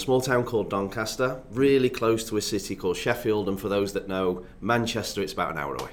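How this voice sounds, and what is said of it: Northern English accent. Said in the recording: “that really cool accent ... Obviously, accent, I'm born and raised in England ... In the north of England”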